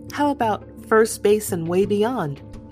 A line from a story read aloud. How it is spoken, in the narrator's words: Gat laughed